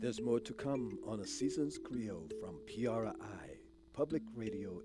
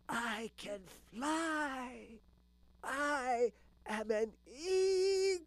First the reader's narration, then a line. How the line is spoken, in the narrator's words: the eaglet screeched